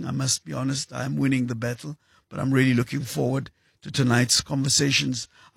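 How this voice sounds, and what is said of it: Strained, unwell-sounding voice. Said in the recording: “As you can hear, my voice is suffering a little bit ... after an epic battle with the flu”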